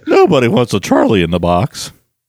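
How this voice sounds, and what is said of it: Good impression of Rudolph character. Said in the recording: “That's a good impression.”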